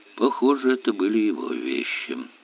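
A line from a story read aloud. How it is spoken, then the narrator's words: Muttered. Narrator (Russian): пробормотал он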